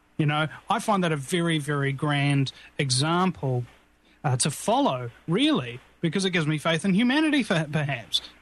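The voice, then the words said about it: British-Australian-New Zealand blended accent. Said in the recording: “you have a very cultured accent. You have the flavor of the British and the Australian, New Zealand. It sounds very cultured to the American ear.”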